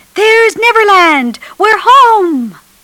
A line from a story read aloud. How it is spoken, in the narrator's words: they were getting very tired when Peter finally shouted